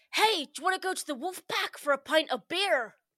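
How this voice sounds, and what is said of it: Muddled accent, American and Somerset mix. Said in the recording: “That was like a mix of American ... Bristol kind of Somerset ... There was like a whole range of accents in there”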